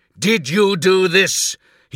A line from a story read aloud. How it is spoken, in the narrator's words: he bellowed